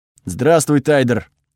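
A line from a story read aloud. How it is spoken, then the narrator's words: Rough savage voice, no accent. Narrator (Russian): ответила она грубым голосом дикаря, без малейшего акцента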